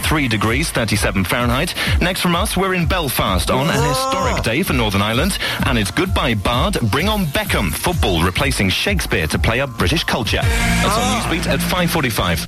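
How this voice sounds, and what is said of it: Put-on newsreader voice. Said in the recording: “Oh, that's awful ... why did I put on that voice? I never used to talk like that, ever.”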